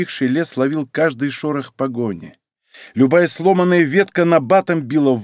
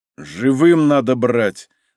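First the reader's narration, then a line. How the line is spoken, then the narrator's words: Strained, stifled shout. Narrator (Russian): сдавленно прикрикнул Лашников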